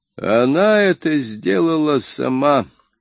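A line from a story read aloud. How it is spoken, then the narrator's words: Sad. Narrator (Russian): сказал он печально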